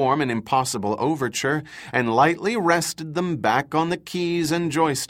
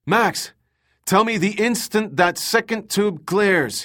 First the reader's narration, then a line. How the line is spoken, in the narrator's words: called out